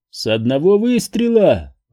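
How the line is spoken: Incredulous snort. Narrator (Russian): недоверчиво хмыкнул

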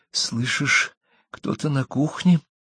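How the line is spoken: Whisper. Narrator (Russian): прошептала Кэрри

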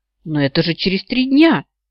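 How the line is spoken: Stunned exclamation. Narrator (Russian): ошеломленно воскликнула я, едва осмыслив его заявление

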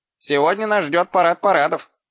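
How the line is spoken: Snort. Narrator (Russian): хмыкнул Шнопс

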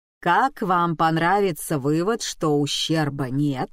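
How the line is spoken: Plain. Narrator (Russian): сказал Гаррисон

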